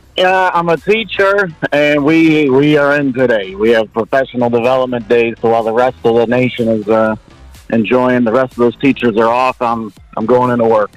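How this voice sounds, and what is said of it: Western New York American accent. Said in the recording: “I love the accent ... America ... New York ... Western New York. Hamburg, New York.”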